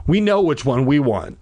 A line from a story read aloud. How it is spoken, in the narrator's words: I said breathlessly